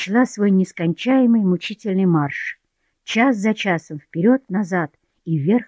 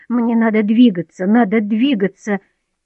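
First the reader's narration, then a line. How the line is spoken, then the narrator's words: Bitter laugh, sudden cry. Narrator (Russian): Горько рассмеялась, вскрикнула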